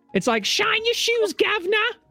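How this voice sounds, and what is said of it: Put-on Cockney accent. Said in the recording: “you will have to speak in a perfect Cockney accent ... That was perfect.”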